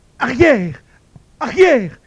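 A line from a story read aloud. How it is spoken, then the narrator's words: Strangled cry. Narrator (French): criait-il d'une voix étranglée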